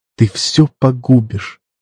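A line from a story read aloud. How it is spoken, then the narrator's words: Whispered. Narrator (Russian): прошептала она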